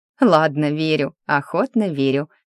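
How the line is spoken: Chuckling. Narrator (Russian): хохотнула

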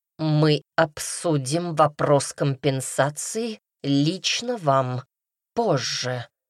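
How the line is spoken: Through gritted teeth. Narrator (Russian): процедил Редрик

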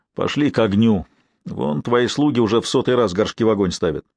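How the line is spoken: Sigh. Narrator (Russian): он еще раз вздохнул и сказал

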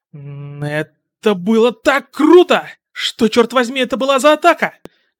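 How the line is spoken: Shouted. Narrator (Russian): крикнул Каминари

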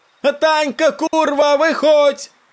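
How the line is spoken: Women yelling. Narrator (Russian): Орали бабы

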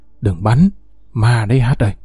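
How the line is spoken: Whisper close to ear. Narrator (Vietnamese): anh KS thì thào ngay bên tai

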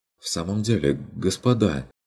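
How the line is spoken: Timid interjection. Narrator (Russian): робко вмешалась графиня фон Лауфенберг

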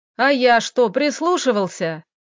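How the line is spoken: Yelling. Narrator (Russian): Орал Леха

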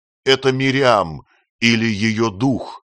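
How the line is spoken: Loud exclamation. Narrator (Russian): Марк не удержался и громко воскликнул

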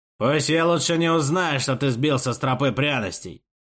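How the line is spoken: Loud growl. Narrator (Russian): прорычал Хасмин достаточно громко, чтобы Амир услышал

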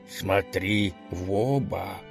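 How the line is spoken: Gang leader speaking quietly. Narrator (Russian): тихонько сказал главарь банды своему подручному

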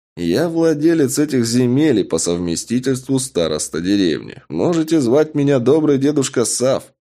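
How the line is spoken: Chuckling. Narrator (Russian): хохотнул кровопийца

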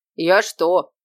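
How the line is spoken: Good-natured deep voice. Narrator (Russian): добродушно пробасила та

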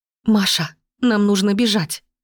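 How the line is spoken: Loud whisper. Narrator (Russian): выдала громким шепотом

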